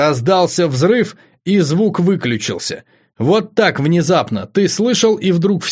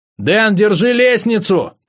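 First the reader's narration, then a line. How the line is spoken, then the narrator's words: Shouting over noise. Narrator (Russian): крикнул я и сам не услышал своего голоса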